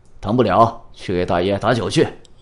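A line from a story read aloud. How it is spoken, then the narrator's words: Loud shout. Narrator (Chinese): 大声叫道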